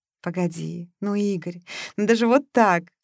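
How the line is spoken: Laughing. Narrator (Russian): смеялась она

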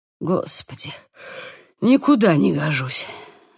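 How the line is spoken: Breathless exhale. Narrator (Russian): выдохнул он

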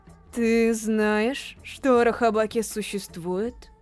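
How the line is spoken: Forced out. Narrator (Russian): Выдавил из себя Ранда

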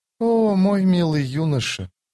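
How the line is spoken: Quiet. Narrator (Russian): тихо проговорила она

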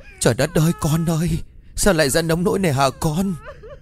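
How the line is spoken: Wailing sobs. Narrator (Vietnamese): tiếng gào khóc

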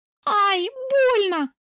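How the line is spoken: Shriek. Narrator (Russian): взвизгиваю

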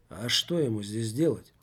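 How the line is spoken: Calm reply. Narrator (Russian): спокойно ответил Жак

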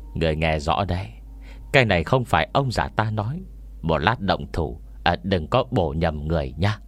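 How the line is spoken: Old man muttering. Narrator (Vietnamese): Ông già lẩm bẩm nói

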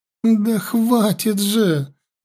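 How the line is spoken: Frightened pleading. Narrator (Russian): взмолилась серая эльфийка

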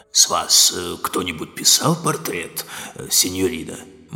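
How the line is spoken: Hoarse question. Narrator (Russian): хрипло осведомился

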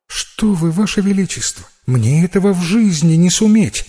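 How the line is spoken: Frightened child's reply. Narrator (Russian): испуганно ответила девочка

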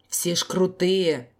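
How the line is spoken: Frowning man's grumble. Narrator (Russian): пробурчал нахмурившийся дядька

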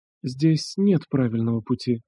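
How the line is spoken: Quiet. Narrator (Russian): сказала тихо

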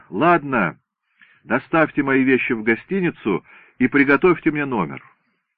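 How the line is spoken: Shout. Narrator (Russian): крикнул

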